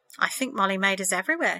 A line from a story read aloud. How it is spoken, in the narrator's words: she said